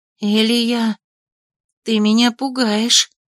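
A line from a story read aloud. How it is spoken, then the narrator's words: Moaned. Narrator (Russian): простонала Ксанна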